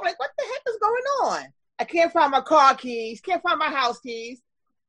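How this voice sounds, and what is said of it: New York accent. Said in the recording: “Can you hear that accent? ... I know you have a New York accent, but I love it too.”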